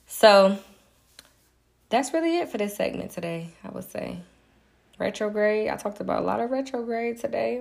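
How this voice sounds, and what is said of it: Slightly hoarse voice. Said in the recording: “I need me a little water. I don't know why I'm a little hoarse. Because I be just talking.”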